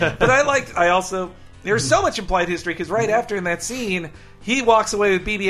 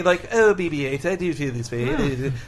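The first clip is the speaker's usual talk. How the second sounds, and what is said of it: Cartoon character voice impression. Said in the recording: “Such a good Stewie impression.”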